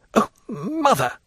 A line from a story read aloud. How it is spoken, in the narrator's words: exclaimed